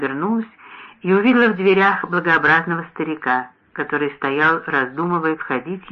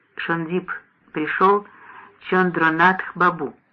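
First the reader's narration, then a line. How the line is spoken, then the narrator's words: Quiet. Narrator (Russian): мой муж тихо сказал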